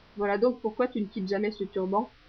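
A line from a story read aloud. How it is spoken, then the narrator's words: Murmur. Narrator (French): murmure-t-il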